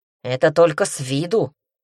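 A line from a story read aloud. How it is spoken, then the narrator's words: Grumbling demon. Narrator (Russian): пробурчал демон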